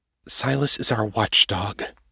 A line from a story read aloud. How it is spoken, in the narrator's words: said quietly